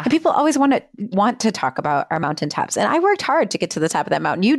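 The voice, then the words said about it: Midwestern American accent. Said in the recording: “I love the Midwestern accent that's coming out as you say that”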